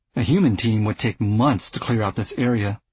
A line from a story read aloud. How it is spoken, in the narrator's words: said Legaspi